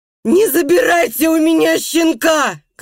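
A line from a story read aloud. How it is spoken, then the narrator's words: Shouting. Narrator (Russian): кричал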